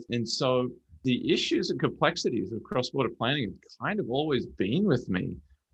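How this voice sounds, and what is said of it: Beautiful accent. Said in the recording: “such a beautiful accent”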